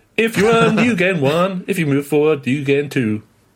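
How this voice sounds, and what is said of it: Put-on redneck accent. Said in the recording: “Rednecks impersonator.”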